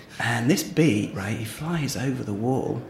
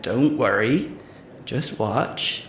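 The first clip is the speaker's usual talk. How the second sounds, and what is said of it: Put-on rural accent for farmer. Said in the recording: “I'm really sorry about the accent.”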